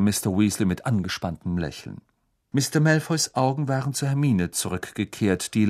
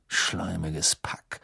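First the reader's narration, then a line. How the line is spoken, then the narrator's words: Murmur. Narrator (German): murmelte Ron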